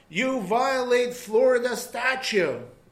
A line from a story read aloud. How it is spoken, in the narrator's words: scream